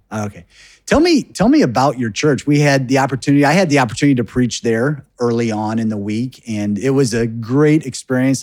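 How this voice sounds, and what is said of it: American English accent. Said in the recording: “my American accent”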